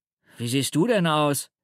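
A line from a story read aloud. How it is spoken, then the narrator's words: Calling out. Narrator (German): ruft er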